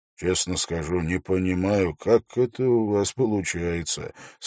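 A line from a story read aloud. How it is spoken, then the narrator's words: Quiet. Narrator (Russian): сказал он тихо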